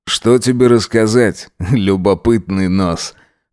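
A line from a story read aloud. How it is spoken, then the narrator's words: Snorting. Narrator (Russian): хмыкнул Джек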